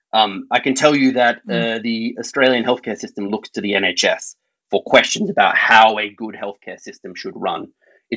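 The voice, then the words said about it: Australian accent. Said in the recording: “My accent reveals I'm Australian.”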